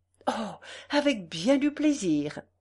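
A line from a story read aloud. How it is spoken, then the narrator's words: Exclaimed. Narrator (French): s'écria Godefroy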